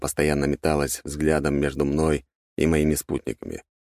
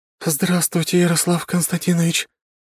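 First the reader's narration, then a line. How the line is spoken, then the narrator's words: Wheezy. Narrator (Russian): просипела в ответ Ратай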